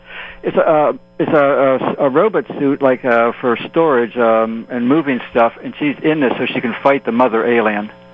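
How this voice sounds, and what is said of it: Midwestern American accent. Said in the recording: “I love the way he pronounced that ... It's that Midwestern accent”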